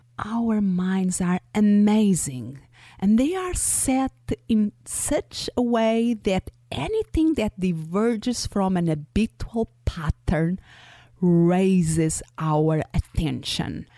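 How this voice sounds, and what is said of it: Non-native English accent. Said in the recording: “my accent, English is not my first language. And was enough for you to listen to a couple of words to know that”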